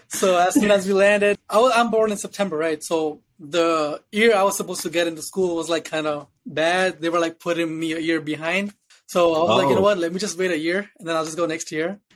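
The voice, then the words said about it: Speaks with a foreign accent. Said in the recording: “You can see my accent. I mean, you can hear it”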